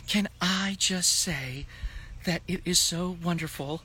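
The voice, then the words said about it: Imitates another person's voice. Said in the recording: “my Nikita impression”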